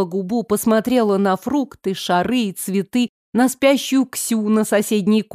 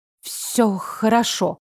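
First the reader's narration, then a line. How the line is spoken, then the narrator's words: Hesitant mumble. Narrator (Russian): пробормотала я, не зная, с чего начать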